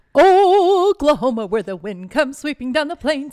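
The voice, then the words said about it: Sings in a put-on accent. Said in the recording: “I don't know where that accent came from”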